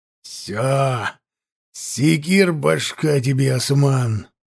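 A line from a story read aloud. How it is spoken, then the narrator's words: Angry hiss. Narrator (Russian): прошипел зло казачина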